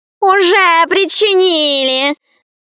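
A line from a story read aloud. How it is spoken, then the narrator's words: Loud laughter. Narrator (Russian): захохотал кот в сапогах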